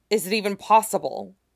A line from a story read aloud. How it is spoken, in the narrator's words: Helix blurts